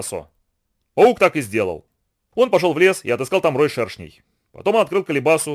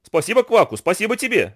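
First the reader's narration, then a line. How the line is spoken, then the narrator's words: Shouting in chorus. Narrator (Russian): закричали шершни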